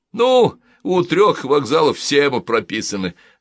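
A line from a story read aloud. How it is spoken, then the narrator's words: Two people laughing. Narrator (Russian): засмеялись они вдвоем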